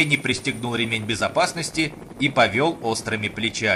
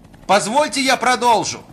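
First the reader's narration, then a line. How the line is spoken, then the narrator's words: Shout. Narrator (Russian): Закричал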